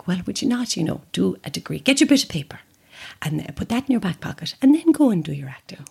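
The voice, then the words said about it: Generic Irish mammy accent. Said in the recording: “a very generic Irish mammy accent ... She is from Cork ... a very generic mother accent, but it is her to a T”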